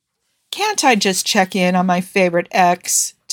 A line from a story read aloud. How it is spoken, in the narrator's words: Ty asked, letting out a faint sigh